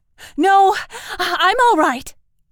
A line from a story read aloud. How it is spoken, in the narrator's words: gasped Mink